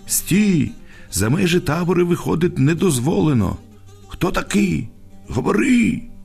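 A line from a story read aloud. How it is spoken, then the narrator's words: Shouting. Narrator (Ukrainian): Солдат крикнув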